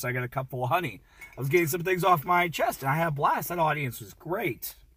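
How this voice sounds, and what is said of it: Slightly hoarse voice. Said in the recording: “my voice was a little hoarse”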